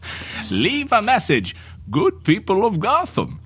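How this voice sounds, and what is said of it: Bane character voice. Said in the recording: “doing your Bane voice”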